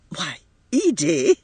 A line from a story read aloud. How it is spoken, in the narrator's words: cried her mother, repressing an inclination to laugh